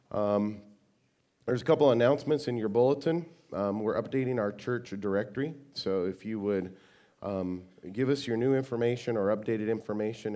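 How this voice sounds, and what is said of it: Sick, strained voice. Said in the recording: “I apologize for my voice. I've been fighting a respiratory infection, and what you have now is way better than what it has been”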